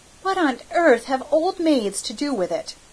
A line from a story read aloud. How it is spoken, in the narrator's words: cried Cecily